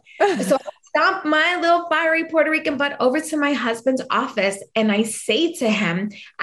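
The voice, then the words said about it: New York accent. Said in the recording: “my New York accent, which I don't think I have, but people say I have”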